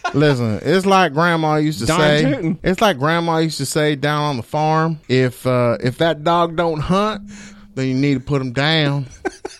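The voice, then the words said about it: Exaggerated American country accent. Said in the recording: “my country accent ... the widest country dude I can possibly imagine”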